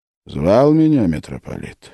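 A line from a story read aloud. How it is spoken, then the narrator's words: Plain. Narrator (Russian): спросил он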